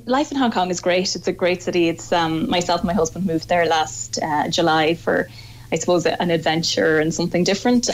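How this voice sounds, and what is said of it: Irish Donegal accent. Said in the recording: “we hear the accent, we know you're Donegal”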